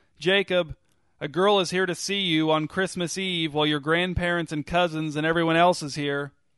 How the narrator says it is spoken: he turned and shouted back down the hall

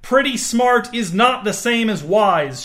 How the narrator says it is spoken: shouted Justine

